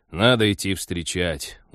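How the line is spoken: Glum admission. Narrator (Russian): уныло признался пилот

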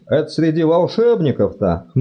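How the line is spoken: Scoffing snort. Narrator (Russian): хмыкнул Чудакулли

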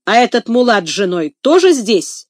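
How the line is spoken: Angry question after pause. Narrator (Russian): сердито спрашивает он после паузы

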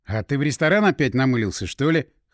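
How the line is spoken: Scoffing grunt. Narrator (Russian): хмыкнул я

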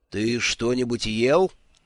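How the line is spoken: Menacing question. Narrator (Russian): грозно вопросил он

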